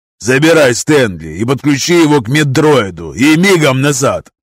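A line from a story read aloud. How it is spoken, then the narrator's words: Barked. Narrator (Russian): рявкнул Волосом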